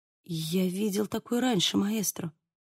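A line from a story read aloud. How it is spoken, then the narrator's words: Muttering. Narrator (Russian): пробормотал Диего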